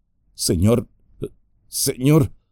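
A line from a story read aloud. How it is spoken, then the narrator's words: Halting, choked voice. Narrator (Spanish): empezó a decir Merry con voz entrecortada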